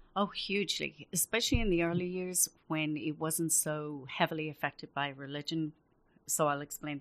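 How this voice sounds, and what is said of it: Irish accent. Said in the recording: “your gorgeous Irish accent”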